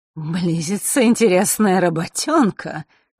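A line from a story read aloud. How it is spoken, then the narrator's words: Sudden guffaw. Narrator (Russian): неожиданно хохотнул тот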